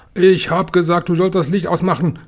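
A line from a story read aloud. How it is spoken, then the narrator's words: Angry shout. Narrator (German): schrie Tausendfüßler erbost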